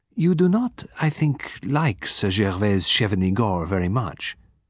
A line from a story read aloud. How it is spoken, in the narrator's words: Poirot said gently